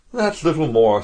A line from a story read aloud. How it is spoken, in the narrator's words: sighed Smith